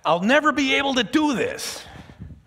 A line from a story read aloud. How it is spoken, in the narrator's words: she shouts